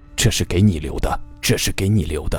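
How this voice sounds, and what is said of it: Fast, quiet muttering. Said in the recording (Chinese): “嘴里正在快速的小声嘟囔着”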